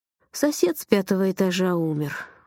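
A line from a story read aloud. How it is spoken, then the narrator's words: Sad. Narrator (Russian): грустно сказал он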